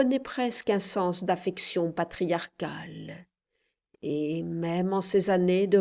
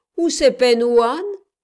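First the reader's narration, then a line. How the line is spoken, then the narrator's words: Mocking snicker. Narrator (French): ricana un nègre moqueur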